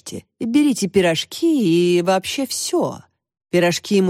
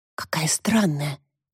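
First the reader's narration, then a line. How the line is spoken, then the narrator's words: Whisper. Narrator (Russian): прошептала Тася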